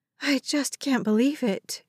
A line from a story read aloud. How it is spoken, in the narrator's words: she breathed